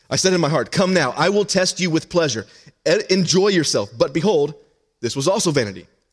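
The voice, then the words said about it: Very fast reading. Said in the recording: “going to read this really fast”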